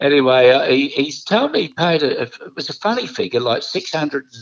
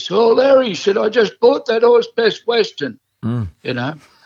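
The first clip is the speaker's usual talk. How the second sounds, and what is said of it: Imitates another person's voice. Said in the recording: “that's a pretty good impression. Do that one again ... that was Gerry ... that's one of your better ones ... that's how he sounded”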